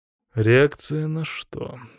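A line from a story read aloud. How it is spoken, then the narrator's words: Dry question. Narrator (Russian): сухо спросил я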